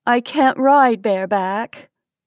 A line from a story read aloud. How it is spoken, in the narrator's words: I moaned